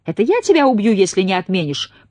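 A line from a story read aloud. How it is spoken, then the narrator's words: Shouted reply. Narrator (Russian): прокричала в ответ Кейт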